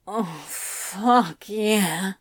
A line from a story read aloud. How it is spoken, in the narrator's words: Crowley moaned, thighs quivering, long body rippling with the effort of what he was doing